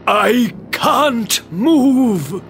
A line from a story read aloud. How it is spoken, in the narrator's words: cried Merlin